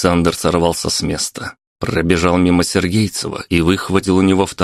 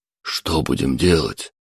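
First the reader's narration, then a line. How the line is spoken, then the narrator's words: Whisper. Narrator (Russian): шепнул бывший следователь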